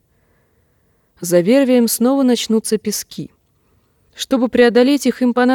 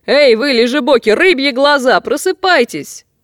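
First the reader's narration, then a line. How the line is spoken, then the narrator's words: Shouting. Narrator (Russian): закричал Гарин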